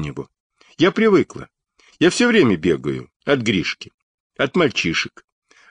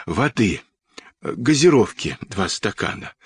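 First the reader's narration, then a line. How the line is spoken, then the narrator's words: Hoarse request. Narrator (Russian): хрипло попросил Сашка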